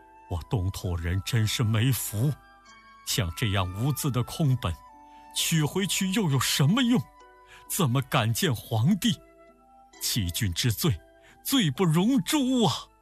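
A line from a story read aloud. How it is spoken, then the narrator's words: Sighing lament. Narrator (Chinese): 唐僧长吁短叹地说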